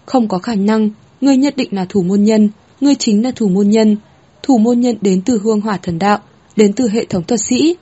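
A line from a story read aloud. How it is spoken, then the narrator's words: Frantic, breathless screaming. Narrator (Vietnamese): Hoàng hít thở chợt dồn dập, bộ dạng nó như phát cuồng xít gào lên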